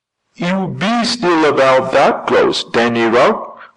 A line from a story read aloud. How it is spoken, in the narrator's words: cried Bert with flashing eyes